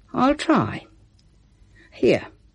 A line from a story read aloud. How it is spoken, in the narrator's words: he sighed